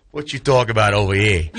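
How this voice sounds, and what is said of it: Put-on Bronx accent. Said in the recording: “I loved your Bronx accent.”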